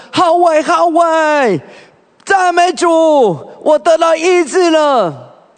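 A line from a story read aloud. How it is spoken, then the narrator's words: Shouting. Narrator (Chinese): 就喊了说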